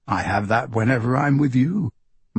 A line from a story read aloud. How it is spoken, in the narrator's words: Marco says